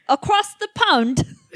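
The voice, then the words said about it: Poor put-on British accent. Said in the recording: “that was a bullshit accent. Try it again ... No, that sounds worse.”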